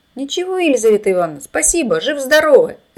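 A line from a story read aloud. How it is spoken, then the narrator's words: Shouted. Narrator (Russian): закричал Володька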